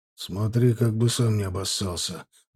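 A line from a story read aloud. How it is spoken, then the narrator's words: Muttered. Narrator (Russian): буркнул Женя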